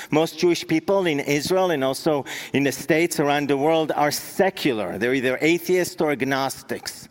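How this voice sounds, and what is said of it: Israeli accent. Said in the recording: “Maybe you've picked up on my accent. I was born and raised in Israel”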